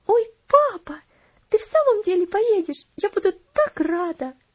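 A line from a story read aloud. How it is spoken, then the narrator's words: Delighted exclamation. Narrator (Russian): восторженно воскликнула она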